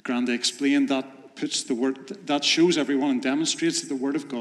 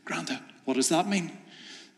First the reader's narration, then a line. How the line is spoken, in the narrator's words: The little boy asked the granda, whispered, he said